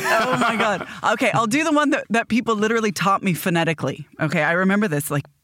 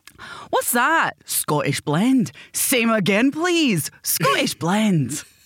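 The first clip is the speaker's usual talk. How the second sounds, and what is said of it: Put-on Glaswegian Scottish accent. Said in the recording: “replicate a Glaswegian accent”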